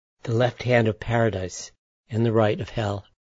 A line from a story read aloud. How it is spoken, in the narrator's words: He whispers